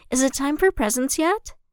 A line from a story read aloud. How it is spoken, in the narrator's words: Ahsoka stating excitedly